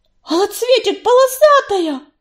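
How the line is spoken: Terrified squeal. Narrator (Russian): в ужасе взвизгнула Рыжинка

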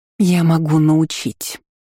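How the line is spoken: Spider hissing through teeth. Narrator (Russian): сквозь зубы процедила паучиха

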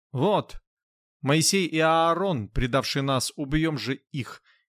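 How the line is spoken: Shout. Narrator (Russian): кто-то не крикнет

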